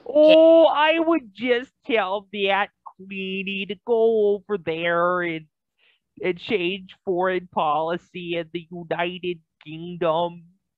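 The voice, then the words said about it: Impression in a stretched-out Alaskan accent. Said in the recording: “I could do a pretty damn good Sarah Palin impression... the Alaska accent... is more pronounced and stretched out”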